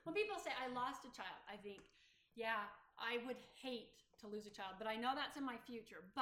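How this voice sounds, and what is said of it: Choked-up, tearful voice. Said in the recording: “I get choked up ... I have to cry”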